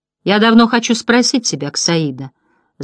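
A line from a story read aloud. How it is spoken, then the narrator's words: Thoughtful. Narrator (Russian): задумчиво проговорил Бастиан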